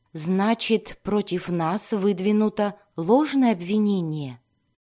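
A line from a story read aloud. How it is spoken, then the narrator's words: Plain. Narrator (Russian): спросил Дзирт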